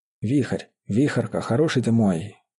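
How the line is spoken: Tender moved whisper. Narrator (Russian): растроганно шептал Мечислав

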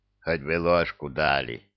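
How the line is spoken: Mumbling while chewing. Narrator (Russian): пробурчал он, азартно работая челюстями

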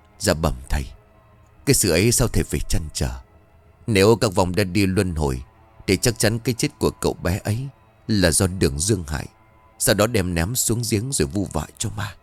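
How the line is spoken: Disciple's mutter. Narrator (Vietnamese): Đang lúc rơi vào vòng luẩn quẩn, trần đứa đồ đệ tin thuật mới lẩm bẩm

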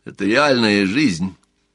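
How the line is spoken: Glum, slightly defiant girl. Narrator (Russian): ответила девушка не очень весело, но определенно с долей дерзости

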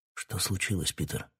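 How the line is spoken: Worried whisper. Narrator (Russian): шепотом спросил король, почуяв, что с другом творится неладное

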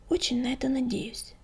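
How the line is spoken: Soft whisper. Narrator (Russian): тихонько шепнула Белоснежка своей соседке

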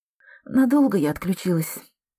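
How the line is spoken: Lazy, stretching. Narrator (Russian): спросила Андреа, лениво потягиваясь

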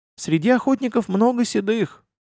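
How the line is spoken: Sad. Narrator (Russian): печально произнес

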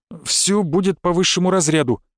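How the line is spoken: Frightened. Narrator (Russian): испуганно закивал директор

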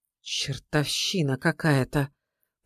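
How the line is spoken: Whisper. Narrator (Russian): прошептал Савелий

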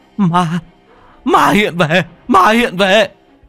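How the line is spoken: Terrified shriek. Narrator (Vietnamese): Bố con thằng Bình cũng rú lên một tiếng

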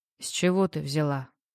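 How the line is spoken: Asked again, muffled. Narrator (Russian): Глухо переспросил Юлик

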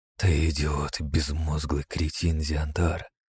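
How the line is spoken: Whispered. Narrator (Russian): Прошептал я

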